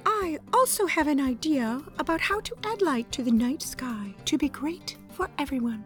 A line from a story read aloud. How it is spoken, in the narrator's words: whispered the sea unicorn modestly